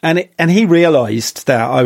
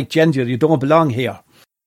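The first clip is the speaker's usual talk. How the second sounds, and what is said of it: Imitated Tipperary Irish accent. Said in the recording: “Tipperary accent was more like”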